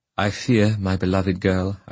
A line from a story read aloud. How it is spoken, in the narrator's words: I said